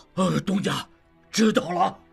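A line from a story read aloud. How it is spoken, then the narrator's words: Loud. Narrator (Chinese): 长顺愣了一愣，忽然明白了，于是大声说道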